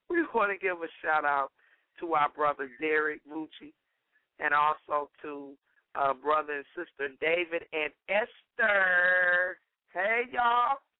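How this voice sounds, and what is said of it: Voice sounding rough and off. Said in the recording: “my voice sounds jacked up this morning. It's a little steep”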